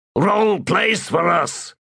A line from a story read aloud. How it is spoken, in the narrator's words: growled the man holding Cutter